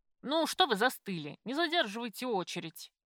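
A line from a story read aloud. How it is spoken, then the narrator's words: Barked shout. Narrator (Russian): Гаркнула в спину Жанна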